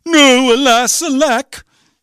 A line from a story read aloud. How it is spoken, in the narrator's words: The prince cried